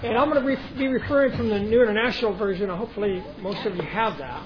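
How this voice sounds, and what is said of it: Accent unlike the local audience's. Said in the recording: “my accent, which is different than all of yours”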